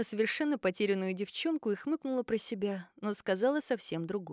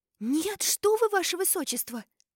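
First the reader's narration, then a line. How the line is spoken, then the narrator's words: Exclaimed. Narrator (Russian): воскликнула Сильвия Роуз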